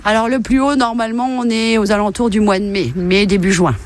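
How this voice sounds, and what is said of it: Regional Haute-Marne French accent. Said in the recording (French): “Alors de la Haute-Marne ... ça s'entend, il y avait l'accent”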